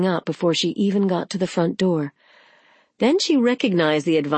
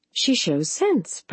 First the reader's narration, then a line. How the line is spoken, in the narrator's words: Practical Sensible cried, her voice a mixture of relief, jubilation, and, was it possible, faint disappointment